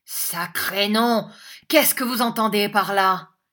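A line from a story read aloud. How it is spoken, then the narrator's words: Agitated exclamation. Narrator (French): s'écria Squeers dans un grand trouble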